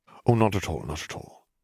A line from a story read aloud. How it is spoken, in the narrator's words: murmured Dumbledore